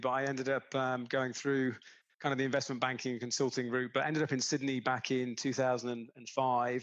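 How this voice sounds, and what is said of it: British accent. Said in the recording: “you can probably tell by the accent, I'm from the UK originally”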